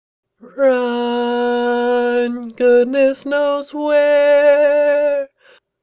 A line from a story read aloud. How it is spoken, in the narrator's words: she started to croon in a warbling voice to a half-remembered tune